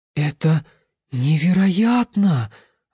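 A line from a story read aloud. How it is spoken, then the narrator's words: Delighted breathless exclamation. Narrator (Russian): в восторге выдохнул он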